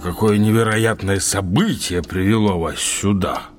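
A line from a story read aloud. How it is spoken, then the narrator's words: Deep, surprised bass. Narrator (Russian): пробасил удивленный майор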